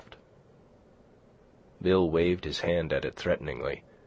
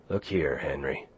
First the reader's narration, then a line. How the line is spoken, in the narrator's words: Bill said, unconsciously lowering his voice to a whisper because of what he imitated